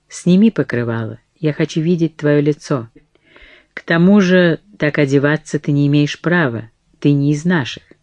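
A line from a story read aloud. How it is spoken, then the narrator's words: Calm. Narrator (Russian): он спокойно сказал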